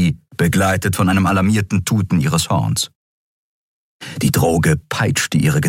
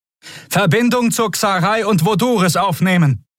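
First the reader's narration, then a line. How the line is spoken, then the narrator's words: Shouted over the noise. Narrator (German): rief Quodal dem Kommunikationsoffizier, einem blutjungen Skria, über den Lärm zu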